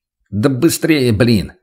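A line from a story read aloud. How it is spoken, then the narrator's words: Irritated snap. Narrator (Russian): раздраженно бросил лейтенант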